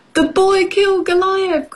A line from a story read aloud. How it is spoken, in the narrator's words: cried Goliath's men